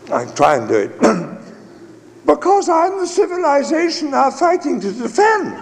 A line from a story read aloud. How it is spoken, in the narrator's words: Strachey, in that high, squeaky voice he had, replied